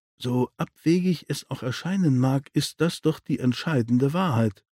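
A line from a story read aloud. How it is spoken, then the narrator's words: Quiet. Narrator (German): sagte leise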